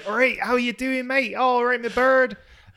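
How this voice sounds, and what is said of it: Exaggerated rural Plymouth accent. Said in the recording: “My local accent is from Plymouth... I should be really like farmery... this is probably a little bit more than I should have”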